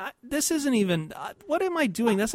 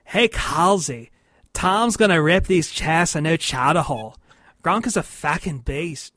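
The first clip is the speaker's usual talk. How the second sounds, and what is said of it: Bad put-on Boston Southie accent. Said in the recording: “I really want to do a bad Southie accent ... That's not even Southie.”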